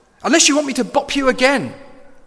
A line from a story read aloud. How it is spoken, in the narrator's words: he cried